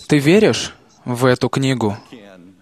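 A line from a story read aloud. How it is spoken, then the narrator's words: Quiet question. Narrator (Russian): тихо спросил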